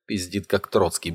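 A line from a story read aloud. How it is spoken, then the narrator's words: Grumbled mutter. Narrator (Russian): буркнул шаман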